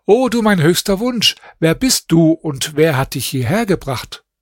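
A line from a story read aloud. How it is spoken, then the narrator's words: Called out. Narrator (German): rief ihr zu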